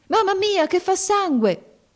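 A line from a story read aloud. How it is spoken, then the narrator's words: Girl shouting. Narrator (Italian): gridò la ragazza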